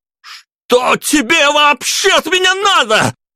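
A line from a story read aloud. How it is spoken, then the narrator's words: Shouted, mustering courage. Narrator (Russian): Закричал я, собравшись с духом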